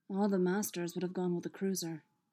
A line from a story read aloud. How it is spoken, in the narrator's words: Obi-Wan said quietly